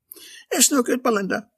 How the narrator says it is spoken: gasped

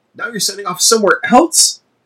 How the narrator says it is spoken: Henry said, his voice strained and angry

